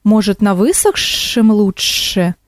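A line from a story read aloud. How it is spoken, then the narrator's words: Hissing snake. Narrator (Russian): зашипела змея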